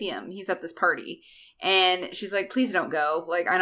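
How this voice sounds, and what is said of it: Usual voice. Nothing is said of it.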